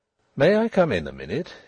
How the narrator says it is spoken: he asked, in a purely business tone

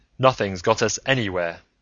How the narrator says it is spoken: Anderton interjected harshly

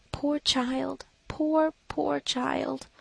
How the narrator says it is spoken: whispered compassionately

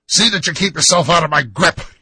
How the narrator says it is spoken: he snarled

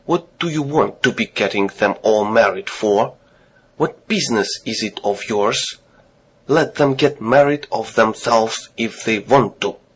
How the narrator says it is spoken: Papa flicked his table napkin angrily and said to Mama

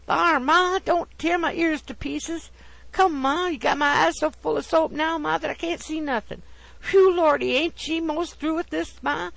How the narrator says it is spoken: He only gave expression to such groans as

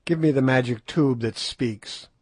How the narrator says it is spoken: in a savage tone

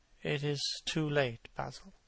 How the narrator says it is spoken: he murmured

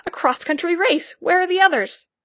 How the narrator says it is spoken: I exclaimed

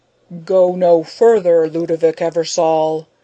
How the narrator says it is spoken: a mighty voice roared from within

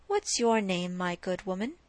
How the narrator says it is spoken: asked he

